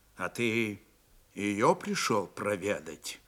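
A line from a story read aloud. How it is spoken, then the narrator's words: Quiet but clear question. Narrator (Russian): Тихо, но внятно спросил Степан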